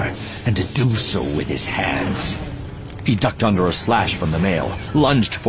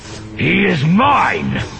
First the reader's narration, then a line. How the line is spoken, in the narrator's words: Malgus shouted, charging through the battlefield